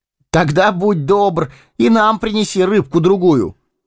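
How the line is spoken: Shouted after someone. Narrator (Russian): крикнул ему вслед Фродо

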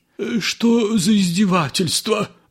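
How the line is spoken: Exclaiming. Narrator (Russian): воскликнул Воробьянинов

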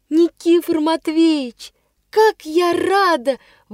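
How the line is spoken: Joyful exclamation. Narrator (Russian): вырвалось у меня радостно

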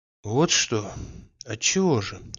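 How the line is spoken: Quiet question. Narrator (Russian): спросил он ее тихо

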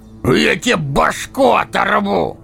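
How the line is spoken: Booming bark, huge man. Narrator (Russian): гаркнул громадина

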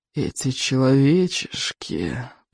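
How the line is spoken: Hiss. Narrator (Russian): прошипел он

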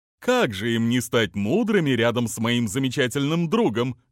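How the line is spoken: Cheerful. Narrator (Russian): весело сказал он

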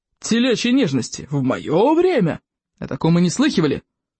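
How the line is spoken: Loud grumbling. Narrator (Russian): ворчал по этому поводу Плевака крикливый

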